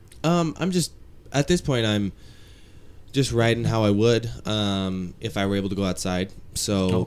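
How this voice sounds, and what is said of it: Deep, weakened voice from cold. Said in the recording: “You got kind of a deep voice. ... This one's taken my voice away a little bit”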